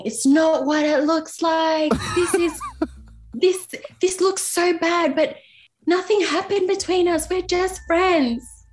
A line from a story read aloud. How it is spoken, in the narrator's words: screaming